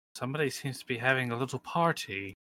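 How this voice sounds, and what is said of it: Put-on Mid-Atlantic accent. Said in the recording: “Don't know what this accent is. ... Mid Atlantic.”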